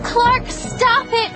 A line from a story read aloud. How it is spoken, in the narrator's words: I screamed